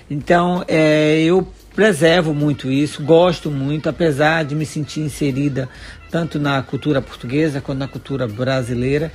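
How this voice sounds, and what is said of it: Brazilian Bahian accent. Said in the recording (Portuguese): “não perdeu o saculejo baiano brasileiro ... o meu sotaque. Imagina só se eu perco o meu sotaque”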